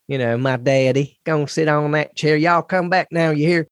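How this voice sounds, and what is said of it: Put-on Southern American accent. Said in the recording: “all three of us had a Southern American accent.”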